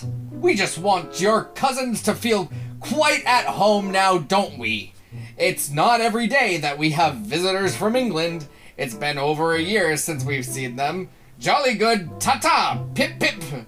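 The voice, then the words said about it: Exaggerated fake British accent. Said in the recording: “this isn't an actual British person. This is just your father ... He apologizes in his best British accent ... as someone who clearly has never been to England”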